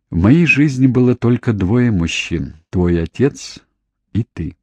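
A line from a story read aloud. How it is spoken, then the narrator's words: Quiet reply. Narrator (Russian): Она тихо ответила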